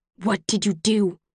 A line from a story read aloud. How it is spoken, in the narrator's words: the question tears from my throat like a growl